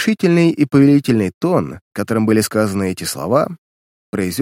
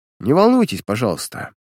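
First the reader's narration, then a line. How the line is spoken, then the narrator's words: Dry interruption. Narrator (Russian): сухо прервал его сыщик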